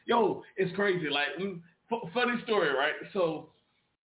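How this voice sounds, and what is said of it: Usual voice. Nothing is said of it.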